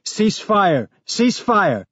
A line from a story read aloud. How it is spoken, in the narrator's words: Someone in the other group was yelling